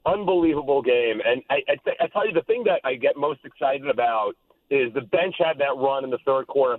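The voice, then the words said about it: Hoarse, nearly lost voice. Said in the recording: “My voice is totally gone. That was the loudest.”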